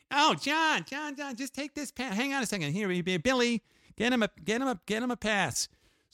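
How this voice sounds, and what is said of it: Imitates another person's voice. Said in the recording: “I'm going to do my best Stephen Rubell imitation.”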